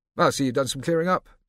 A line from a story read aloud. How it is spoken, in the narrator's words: Scipio called out